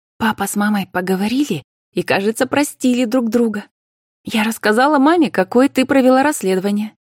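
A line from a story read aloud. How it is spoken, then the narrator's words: Brief joyful report. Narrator (Russian): коротко и по существу радостно докладывала Карина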